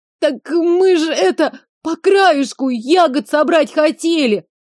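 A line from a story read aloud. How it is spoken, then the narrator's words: Sobbing boy. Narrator (Russian): Начал всхлипывать парнишка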